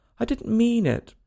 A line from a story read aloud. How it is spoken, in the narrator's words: pleaded poor Alice